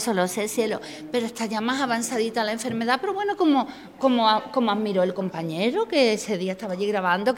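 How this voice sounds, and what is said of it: Andalusian Jerez/Cádiz Spanish accent. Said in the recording (Spanish): “hoy me ha salido un acento muy de allí, de la parte de Jerez ... Como yo tengo mucho de allí también de Cádiz”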